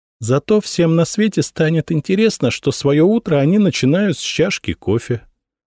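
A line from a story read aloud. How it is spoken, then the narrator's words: Calm retort. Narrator (Russian): спокойно парировала Анна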